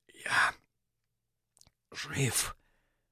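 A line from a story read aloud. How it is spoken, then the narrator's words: Weak whisper. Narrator (Russian): Губами, похожими на две пульсирующие гусеницы, прошептал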